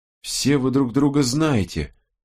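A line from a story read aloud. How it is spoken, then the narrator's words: Weary. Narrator (Russian): устало выговорила Робин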